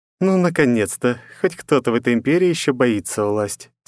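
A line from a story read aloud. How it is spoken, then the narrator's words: Heavy sigh. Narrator (Russian): тяжело вздохнула она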